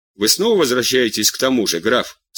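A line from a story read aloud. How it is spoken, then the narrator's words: Dry, queen. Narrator (Russian): сухо сказала королева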